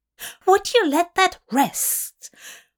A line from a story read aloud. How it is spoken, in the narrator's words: Aziraphale says, his voice higher than usual